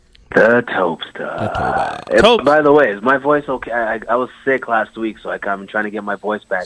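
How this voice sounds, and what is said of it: Slightly raspy voice. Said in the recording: “Sound a little raspy, bro. ... I sound a little raspy. ... A little bit raspy.”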